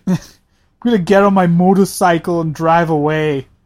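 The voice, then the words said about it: Put-on accent. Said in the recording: “my accent is terrible today ... My accent was great”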